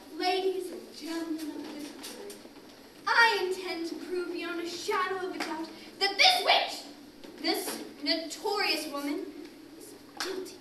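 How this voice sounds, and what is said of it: Overacted villainous lawyer accent. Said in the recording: “I'm playing the evil lawyer, and you'll be able to tell it by my overacting accent.”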